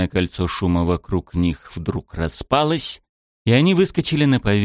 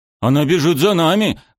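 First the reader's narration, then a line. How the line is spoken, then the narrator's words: Exclaiming. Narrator (Russian): воскликнул Дэра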